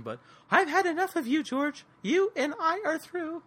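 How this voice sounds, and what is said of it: Imitates another person's voice. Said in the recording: “That's a really good impersonation, man. That was really impressive.”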